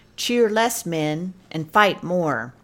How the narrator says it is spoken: Longstreet, who was himself a man of few words, simply called out

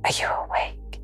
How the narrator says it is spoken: I whispered softly

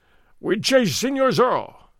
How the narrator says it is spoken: Gonzales cried

